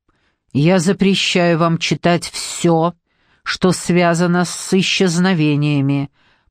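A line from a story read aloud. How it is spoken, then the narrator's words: Through gritted teeth. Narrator (Russian): проговорил Торн сквозь зубы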